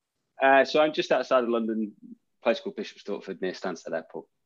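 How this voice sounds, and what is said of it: Northern English accent. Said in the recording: “I'm definitely a northerner. ... I could pick that up in the accent.”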